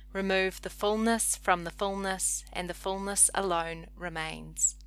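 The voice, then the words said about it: Noticeable accent, 'full' like 'fool'. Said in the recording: “That was F-U-L-L, not F-O-O-L, just in case my accent created any kind of confusion.”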